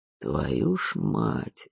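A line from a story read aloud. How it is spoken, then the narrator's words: Muttering. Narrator (Russian): бормотал кто-то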